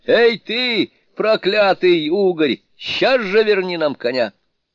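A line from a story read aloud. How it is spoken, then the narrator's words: Shouting. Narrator (Russian): он кричал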